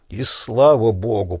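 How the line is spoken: Hoarse croak. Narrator (Russian): прохрипел Крейг

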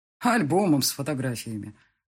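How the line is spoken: Scoffing grunt. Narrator (Russian): хмыкнул

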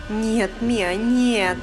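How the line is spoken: Moan. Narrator (Russian): Простонала Сюзанна

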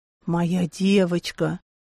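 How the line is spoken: Hoarse whisper in ear. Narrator (Russian): Прохрипел ей на ушко

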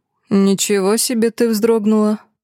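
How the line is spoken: Scoffing. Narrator (Russian): Хмыкнул незнакомец

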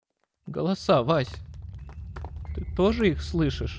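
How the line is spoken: Barely audible. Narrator (Russian): Синицкий говорил едва слышно

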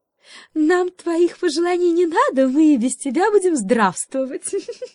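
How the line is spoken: Cheerful laughter. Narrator (Russian): весело рассмеялась лиса

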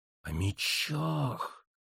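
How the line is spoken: Hissing. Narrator (Russian): прошипела Лита

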